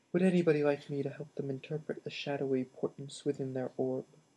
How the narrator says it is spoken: she murmured over the clinking of her bangs

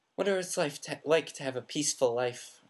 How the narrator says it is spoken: Ron sighed

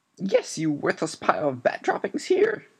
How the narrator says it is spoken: shrieked Mrs

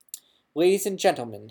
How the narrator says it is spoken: said loudly, waiting for quiet

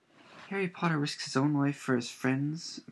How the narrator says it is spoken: moaned Dobby, in a kind of miserable ecstasy

